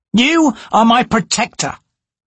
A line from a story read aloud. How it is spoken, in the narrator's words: Hairlock snapped